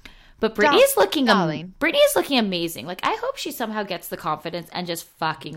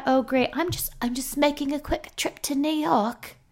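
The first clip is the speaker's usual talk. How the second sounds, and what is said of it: Badly done put-on accent. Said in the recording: “That was a horrible accent, per usual.”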